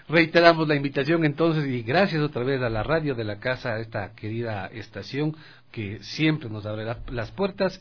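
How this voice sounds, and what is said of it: Announcer-style radio voice. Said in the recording (Spanish): “voz de locutor”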